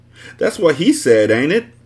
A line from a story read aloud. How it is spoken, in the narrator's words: I scoffed, getting mad all over again